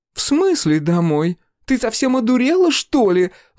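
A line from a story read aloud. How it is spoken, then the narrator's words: Shrill shriek. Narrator (Russian): взвизгнула она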